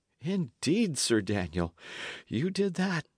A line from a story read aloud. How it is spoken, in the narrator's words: said Dick, and sighed again at the mere recollection